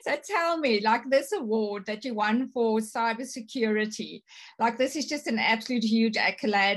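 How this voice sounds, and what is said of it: Strong foreign accent in English. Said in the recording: “obviously my accent is strong”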